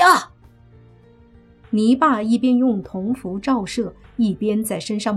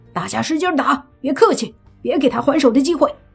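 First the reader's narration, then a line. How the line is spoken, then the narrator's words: Shouting while fighting. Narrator (Chinese): 莫凡一边打，还一边喊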